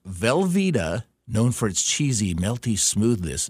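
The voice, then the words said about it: Announcer-style radio voice. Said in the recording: “This is my radio voice.”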